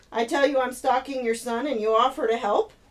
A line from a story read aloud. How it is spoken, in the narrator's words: Jed chuckled